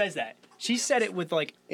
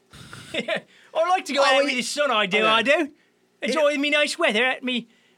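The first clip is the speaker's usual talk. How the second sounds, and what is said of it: Mock English accent. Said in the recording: “your English accent”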